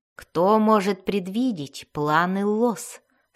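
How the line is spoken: Plain. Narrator (Russian): спросил он

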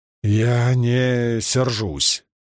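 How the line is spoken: Tense voice. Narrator (Russian): напряженным голосом произнес Ранд

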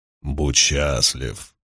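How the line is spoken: Booming drone. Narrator (Russian): прогудел Хаман

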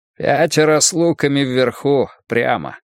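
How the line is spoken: Grim, through teeth. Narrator (Russian): мрачно процедил Спалли

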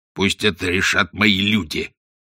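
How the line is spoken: Angry growl. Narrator (Russian): зарычал Каузак

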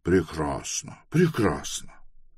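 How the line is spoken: Thoughtful speech. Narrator (Russian): Тревес задумчиво проговорил

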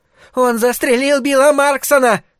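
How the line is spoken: High piercing male yell. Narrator (Russian): завопил мужчина высоким пронзительным голосом

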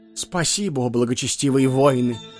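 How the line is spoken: Sad, muffled from sack. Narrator (Russian): печальным голосом ответил из мешка Хаджуна Средин

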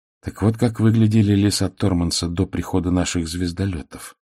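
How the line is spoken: Quiet. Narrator (Russian): негромко сказала Тивиса

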